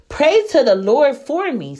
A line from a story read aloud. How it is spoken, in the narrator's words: Simon exclaimed